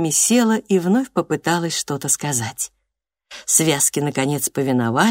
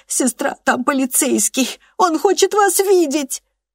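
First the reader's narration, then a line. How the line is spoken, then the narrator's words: Squealing with laughter. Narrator (Russian): Трикси так и взвизгнула от смеха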